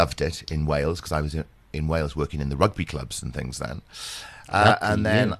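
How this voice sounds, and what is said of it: Usual voice. Nothing is said of it.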